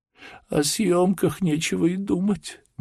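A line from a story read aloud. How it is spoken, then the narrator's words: Sobbing. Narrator (Russian): говорила она, всхлипывая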